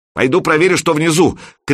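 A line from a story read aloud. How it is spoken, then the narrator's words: Shouted. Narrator (Russian): крикнула Любка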